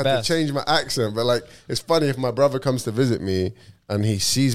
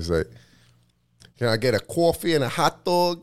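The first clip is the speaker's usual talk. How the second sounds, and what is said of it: Put-on New Jersey accent. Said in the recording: “Do you want to hear my Jersey accent? ... It's probably terrible.”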